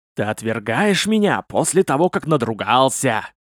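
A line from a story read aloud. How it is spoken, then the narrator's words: Hissing old woman. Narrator (Russian): зашипела старуха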